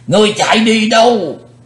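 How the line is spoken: Old man's loud roar. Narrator (Vietnamese): lão thủ tịch hộ pháp gầm to lên

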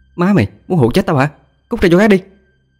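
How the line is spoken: Angry shouted scolding. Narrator (Vietnamese): Hà quát mắt lên chửi

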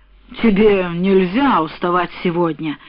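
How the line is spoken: Short laugh. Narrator (Russian): хохотнул он

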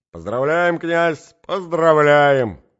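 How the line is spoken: Shouting from all sides. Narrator (Russian): кричали со всех сторон

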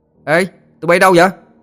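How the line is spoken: Calling out. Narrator (Vietnamese): Nó kêu lên

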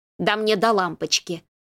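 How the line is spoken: Rude reply. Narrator (Russian): грубо ответила Александра

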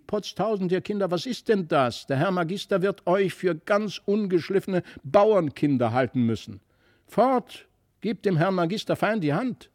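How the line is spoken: Angry call. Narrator (German): wurde die Frau von Brakel böse und rief

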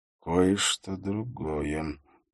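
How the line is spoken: Quiet muttering under breath. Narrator (Russian): тихо пробормотал он себе под нос

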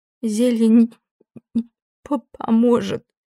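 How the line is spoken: Tearful stuttering nasal voice. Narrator (Russian): заикаясь от слез, прогнусавила Нейда

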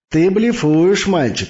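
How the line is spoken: Laughing. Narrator (Russian): засмеялся Наварро

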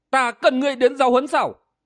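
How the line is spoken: Young man, loud shout. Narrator (Vietnamese): Bạch y thiếu niên nào chịu nghe, hắn quát lớn

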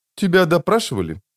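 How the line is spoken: Flat even tone. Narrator (Russian): поинтересовалась она таким ровным тоном, как будто это вовсе и не вопрос

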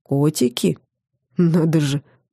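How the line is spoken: Man snorting. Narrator (Russian): мужчина хмыкнул

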